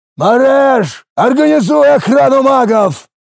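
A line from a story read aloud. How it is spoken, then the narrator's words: Roared. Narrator (Russian): проревел десятник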